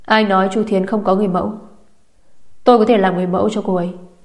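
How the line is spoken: Cold interrupting voice. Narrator (Vietnamese): một tiếng nói lạnh lùng chặn ngang

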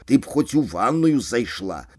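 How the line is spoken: Grumbling. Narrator (Belarusian): буркнуў Сашко пасля першай зацяжкі

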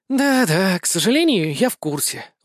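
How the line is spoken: Sighing. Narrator (Russian): вздохнула Сэн

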